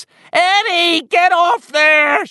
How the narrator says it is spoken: she screamed

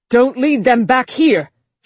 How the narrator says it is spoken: shouted the Frankenbot, eking what little emotion he could out of his translator head

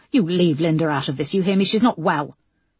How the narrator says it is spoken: shouted Simon

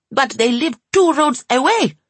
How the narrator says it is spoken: cried Alsana triumphantly

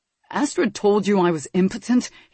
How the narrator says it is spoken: he gasped

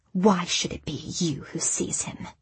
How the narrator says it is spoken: she hissed

